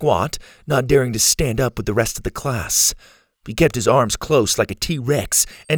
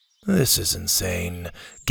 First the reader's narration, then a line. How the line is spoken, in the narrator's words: Gavin grumbled